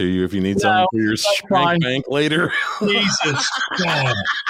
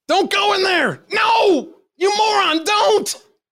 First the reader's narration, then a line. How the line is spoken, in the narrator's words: I caught the wife yelling at the TV